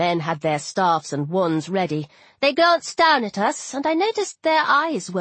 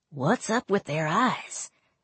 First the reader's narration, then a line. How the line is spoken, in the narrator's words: Alyssa whispered to me